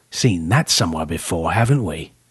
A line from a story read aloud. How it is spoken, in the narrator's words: Ian whispered